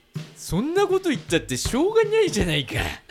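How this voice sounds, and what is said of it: Imitates another person's voice. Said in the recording (Japanese): “新しいモノマネお願いします。... それ何えなりかずき。”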